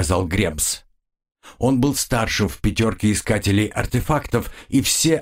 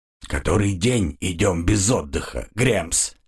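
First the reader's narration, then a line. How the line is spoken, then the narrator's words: Grumbling. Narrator (Russian): пробурчал он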